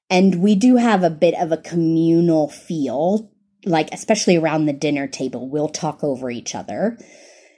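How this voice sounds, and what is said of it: Southern American accent. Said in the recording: “I'm from the South in the United States. You can tell I'm American by my accent.”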